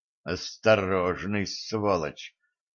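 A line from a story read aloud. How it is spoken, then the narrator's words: Grumbling colonel. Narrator (Russian): буркнул полковник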